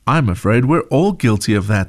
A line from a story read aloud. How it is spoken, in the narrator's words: said Mom